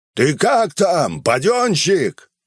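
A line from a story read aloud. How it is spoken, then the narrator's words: Shout. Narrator (Russian): крикнул он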